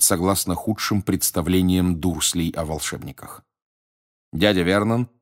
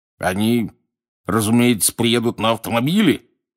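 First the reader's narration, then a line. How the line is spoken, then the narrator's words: Growled across table. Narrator (Russian): зарычал через стол дядя Вернон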